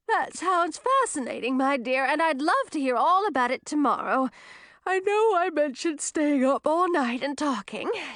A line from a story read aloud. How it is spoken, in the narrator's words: said, stifling a yawn